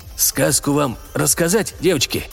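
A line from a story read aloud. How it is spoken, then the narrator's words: Hoarse but composed. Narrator (Russian): Каас говорил хрипло, но присутствие духа не терял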